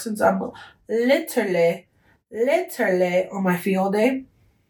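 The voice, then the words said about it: Slightly British-sounding speech. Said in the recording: “sound a little British there”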